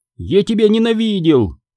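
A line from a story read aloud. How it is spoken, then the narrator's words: Shout. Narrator (Russian): крикнул он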